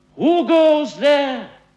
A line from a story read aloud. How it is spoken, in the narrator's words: Will Sentry called out to the flying moon